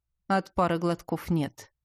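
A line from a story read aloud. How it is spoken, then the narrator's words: Smirking executioner's grunt. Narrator (Russian): хмыкнул палач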